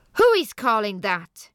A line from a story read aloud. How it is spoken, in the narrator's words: yelled